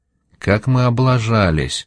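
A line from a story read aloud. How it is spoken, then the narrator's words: Muttered. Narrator (Russian): пробормотала Пима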